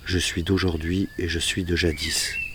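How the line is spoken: Plain. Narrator (French): dit-il

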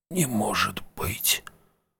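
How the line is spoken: Mouthed whisper. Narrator (Russian): одними губами прошептал он

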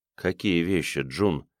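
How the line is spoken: Calm question. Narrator (Russian): спокойно спросила Джеральдина

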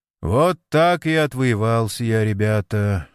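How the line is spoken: Dull muffled voice. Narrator (Russian): глухо закончил Сергей Митрофанович

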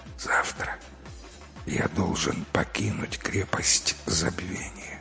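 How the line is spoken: Quietly finishing. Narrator (Russian): наклонившись к Аршаху, он тихо договорил

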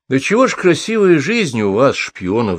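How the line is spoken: Sighing. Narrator (Russian): вздохнул Лыков

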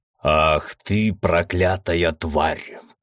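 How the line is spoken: Growl. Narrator (Russian): прорычал Мизраил

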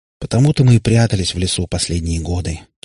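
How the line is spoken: Heavy sigh. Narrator (Russian): тяжело вздохнул Катипап

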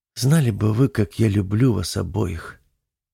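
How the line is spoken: Quiet. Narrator (Russian): тихо произнесла Элика

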